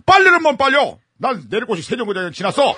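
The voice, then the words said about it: Annoyed shouting old man. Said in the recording (Korean): “할아버지는 짜증난 목소리로 소리쳤어요”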